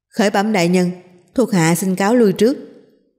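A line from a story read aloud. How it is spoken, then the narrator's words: Loud proclamation. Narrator (Vietnamese): cao giọng hô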